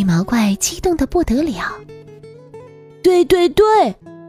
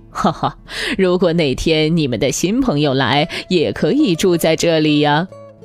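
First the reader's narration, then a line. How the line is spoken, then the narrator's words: Laughing. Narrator (Chinese): 爸爸笑着说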